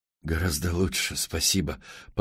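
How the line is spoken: Muttered. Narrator (Russian): пробормотал Мэтт

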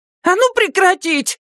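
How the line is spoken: Woman shouting. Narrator (Russian): крикнула женщина в серапе

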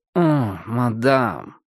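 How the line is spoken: Blissful purr. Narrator (Russian): тот блаженно промурлыкал

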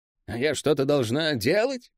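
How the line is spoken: Grumbling mutter. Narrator (Russian): буркнула Нэ

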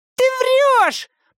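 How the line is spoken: Shouted reply, little imp. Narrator (Russian): прокричал в ответ маленький дьяволенок

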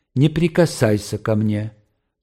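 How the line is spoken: Calm and menacing. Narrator (Russian): произнесла она спокойно и страшно

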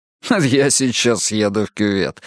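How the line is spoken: Laughing remark. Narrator (Russian): смеясь заметил он

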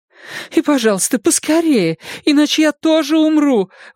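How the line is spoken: Pleading. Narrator (Russian): взмолилась она

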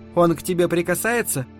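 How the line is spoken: Almost angry question. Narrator (Russian): мать почти злобно спросила

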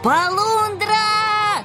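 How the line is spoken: Sudden yell. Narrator (Russian): Неожиданно завопил полосатый

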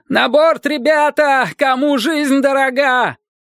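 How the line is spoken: Cowardly shout. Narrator (Russian): кто-то с подлинным вдохновением труса крикнул

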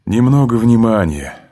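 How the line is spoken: Tired, captain. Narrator (Russian): сказал капитан, устало

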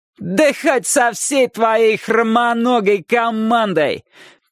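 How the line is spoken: Shouted reply. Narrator (Russian): крикнул тот в ответ

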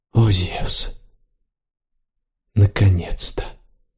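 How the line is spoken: Barely audible whisper. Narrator (Russian): чуть слышно прошептал Марцел

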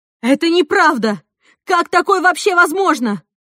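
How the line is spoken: Shouting woman. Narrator (Russian): Она закричала

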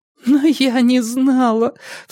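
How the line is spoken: Sobbing. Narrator (Russian): всхлипывала девушка

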